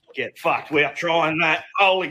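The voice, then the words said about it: Speaks with a noticeable accent. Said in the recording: “I love the accent already.”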